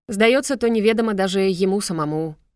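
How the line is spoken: Wry snort. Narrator (Russian): хмыкнул Пепел

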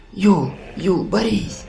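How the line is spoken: Weak quiet whisper, girl. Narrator (Russian): прошептала девушка, но голос ее был тих и немощен

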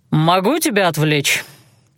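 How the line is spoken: Curious question. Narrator (Russian): полюбопытствовал Эйландир

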